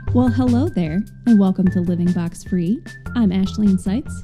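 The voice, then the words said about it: Smooth soothing radio voice. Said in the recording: “So soothing today ... I was going for a smooth radio voice ... smooth jazz”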